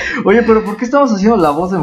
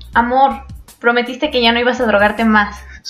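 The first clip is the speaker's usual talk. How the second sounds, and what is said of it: Man doing a woman's voice. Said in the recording (Spanish): “voz de mujer”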